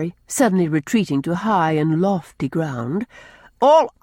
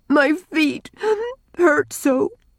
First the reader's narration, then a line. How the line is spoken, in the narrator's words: sobbed Rilla